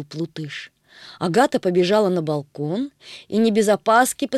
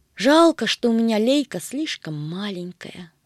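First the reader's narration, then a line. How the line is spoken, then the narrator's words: Regretful sigh. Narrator (Russian): сокрушенно вздохнула Агата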